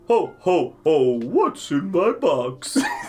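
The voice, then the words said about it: Santa Claus voice. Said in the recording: “Maybe say it like Santa Claus.”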